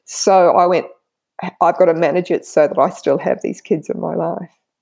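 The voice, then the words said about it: Emotional, voice getting shaky. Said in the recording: “I'm getting a bit emotional”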